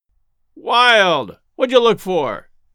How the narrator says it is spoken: called out Cogswell scornfully

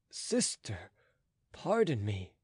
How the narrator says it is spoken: said the count tenderly

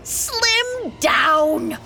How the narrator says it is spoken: The witch shrieked

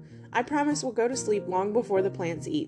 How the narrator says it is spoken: said Michael

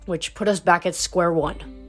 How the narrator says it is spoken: Hazel said bitterly

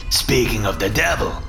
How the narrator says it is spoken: Dragon said, his tone darker and angrier than I'd ever heard it before

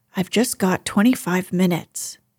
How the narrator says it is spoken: said

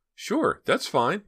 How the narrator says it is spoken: Myra exclaimed

